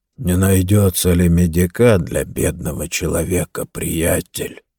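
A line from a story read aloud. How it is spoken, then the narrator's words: Dull, flat voice. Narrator (Russian): спросил Джо глухим бесцветным голосом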